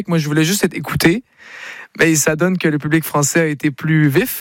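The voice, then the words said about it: Québécois French accent. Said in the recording (French): “l'accent ... mon accent québécois”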